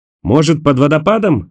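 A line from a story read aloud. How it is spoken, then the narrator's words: Shout. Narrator (Russian): закричал Роэн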